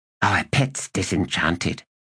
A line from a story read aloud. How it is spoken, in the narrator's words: whispered Tellerast